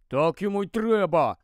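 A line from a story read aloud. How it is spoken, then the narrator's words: Grumbled. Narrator (Ukrainian): буркнув Рон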